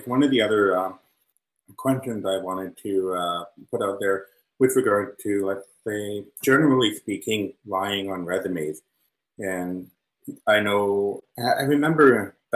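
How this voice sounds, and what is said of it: Hoarse, fading voice. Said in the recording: “excuse me, I'm losing my voice.”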